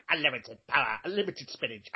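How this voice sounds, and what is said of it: Popeye cartoon character voice. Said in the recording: “sounds a bit like Popeye, my impression.”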